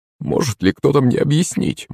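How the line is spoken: Confused muttering. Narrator (Russian): бормотал растерянный Березин

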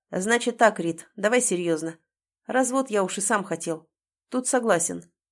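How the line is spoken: Businesslike tone. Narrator (Russian): говорит деловым тоном

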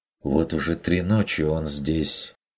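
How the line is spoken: Quiet interjection. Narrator (Russian): вмешался Бруно негромко

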